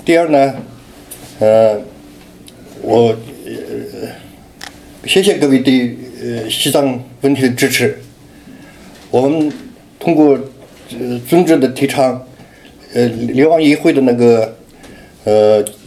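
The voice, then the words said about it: Heavy accent in Mandarin. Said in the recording (Chinese): “像我的话口口音也比较重，三三十将近三十年没讲中文”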